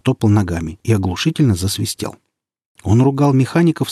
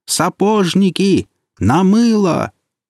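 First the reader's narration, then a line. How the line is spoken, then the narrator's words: Shouted in a strange voice. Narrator (Russian): барабанщик, сам не зная почему, закричал не своим голосом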